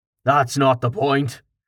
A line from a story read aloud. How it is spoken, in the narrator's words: Carten growled